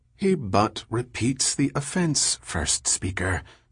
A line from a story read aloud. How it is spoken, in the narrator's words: said Delarmy softly